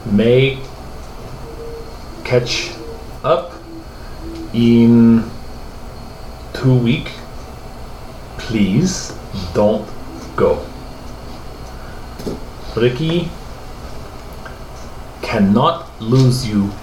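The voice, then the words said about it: Strong accent. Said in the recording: “Dear God, that accent.”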